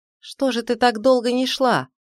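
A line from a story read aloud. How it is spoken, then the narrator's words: Shout. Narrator (Russian): крикнул он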